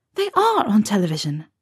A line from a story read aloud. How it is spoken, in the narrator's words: Maman said sharply